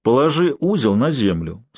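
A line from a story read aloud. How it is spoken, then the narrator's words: Calm quiet command. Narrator (Russian): спокойно, не повышая голоса, скомандовал Алексей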